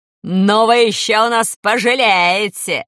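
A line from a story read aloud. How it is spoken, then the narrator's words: Hysterical shriek. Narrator (Russian): завизжала она и затопала ногами в истерике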